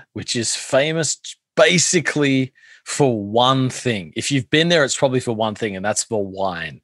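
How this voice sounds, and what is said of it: Australian accent. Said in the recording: “your beautiful accent ... you got a wonderful Australian accent”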